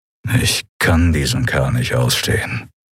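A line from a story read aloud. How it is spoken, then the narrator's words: Growl. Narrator (German): knurrte Telios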